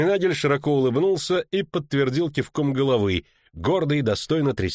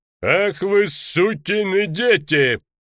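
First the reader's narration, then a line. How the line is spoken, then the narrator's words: Sudden deep booming bark. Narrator (Russian): Совершенно неожиданно рявкнул пастельный бургомистр бычьим голосом, никак не соответствующим его телесам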